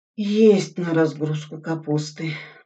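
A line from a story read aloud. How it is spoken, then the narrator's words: Dejected voice. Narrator (Russian): упавшим голосом сказал Суслин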